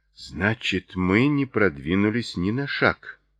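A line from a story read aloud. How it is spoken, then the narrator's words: Gloomy. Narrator (Russian): мрачно заключила Кристина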